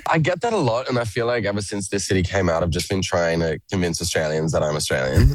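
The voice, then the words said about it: Australian accent mixed with American. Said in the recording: “My accent is an absolute mess... you sound like a bloody Yank”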